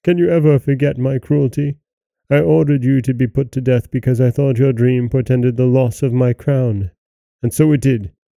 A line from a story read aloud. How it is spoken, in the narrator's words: he cried